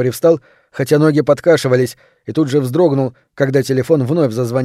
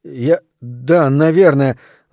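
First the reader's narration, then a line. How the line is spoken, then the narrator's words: Stammering. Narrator (Russian): запинаясь, проговорил Виктор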